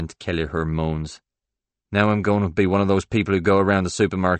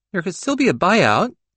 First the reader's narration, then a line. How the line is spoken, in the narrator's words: Derry Fusco pleads